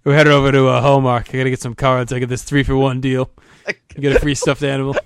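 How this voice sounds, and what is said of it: Put-on New Hampshire accent. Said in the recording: “I like how you just put the New Hampshire accent.”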